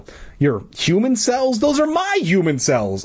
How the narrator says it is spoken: cried

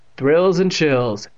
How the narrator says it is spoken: Evan said sarcastically

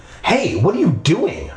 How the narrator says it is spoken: cried

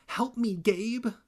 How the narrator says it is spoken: pleaded

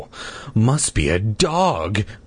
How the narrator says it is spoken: I murmured out loud

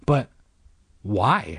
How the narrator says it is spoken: stammered

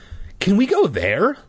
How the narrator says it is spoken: Luke demanded eagerly

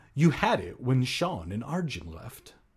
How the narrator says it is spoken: Hannah said

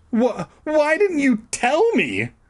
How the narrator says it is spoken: I shrieked

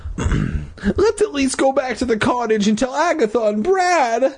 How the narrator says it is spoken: I pleaded

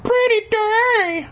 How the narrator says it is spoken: she said cheerfully

